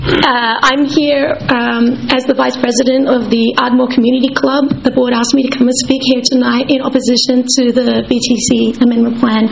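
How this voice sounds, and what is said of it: Husky voice. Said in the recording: “I apologize for the husky voice. I'm recovering from laryngitis, ... better some husky voice for democracy.”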